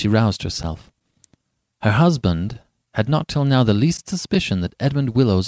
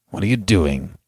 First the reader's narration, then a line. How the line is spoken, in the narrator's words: he asked